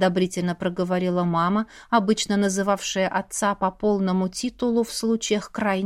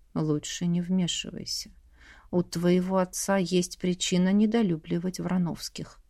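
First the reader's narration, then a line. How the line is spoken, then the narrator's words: Quiet, close to ear. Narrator (Russian): Мама наклонилась к моему уху и тихонько проговорила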